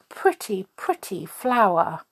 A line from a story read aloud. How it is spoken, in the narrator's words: Bambi exclaimed